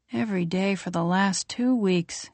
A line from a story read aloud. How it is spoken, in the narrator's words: he says wearily